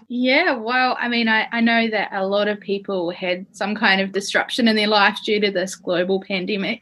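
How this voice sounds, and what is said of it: Kiwi accent mixed with Australian, American. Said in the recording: “girl with a Kiwi accent ... I definitely have some kind of Kiwi accent, but it's been mixed together now with Australian and American. I sound super strange”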